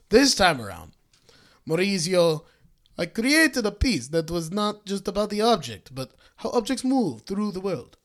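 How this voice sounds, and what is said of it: Put-on Italian accent. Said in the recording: “let's hear your Italian accent ... he has to be a pussy sounding Italian ... I got his accent.”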